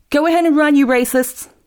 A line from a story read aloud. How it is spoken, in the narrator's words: yelled